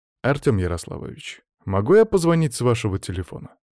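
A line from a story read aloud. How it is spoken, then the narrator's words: Plain. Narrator (Russian): спросил я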